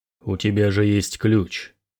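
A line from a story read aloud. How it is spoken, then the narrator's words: Calm question. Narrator (Russian): спокойно спросил Снорри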